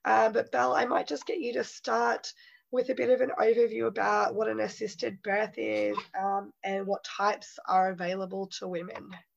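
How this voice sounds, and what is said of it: Hoarse, fading voice from flu. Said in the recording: “My voice is a little bit gone. I'm suffering from the flu at the moment.”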